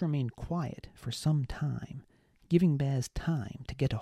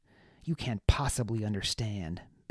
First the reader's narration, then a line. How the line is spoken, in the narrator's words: Baz said, eyes to the floor, blinking furiously